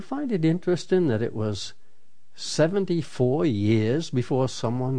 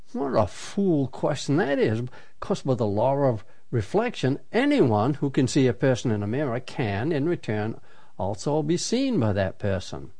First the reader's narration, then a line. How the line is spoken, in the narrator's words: any child would have snorted and said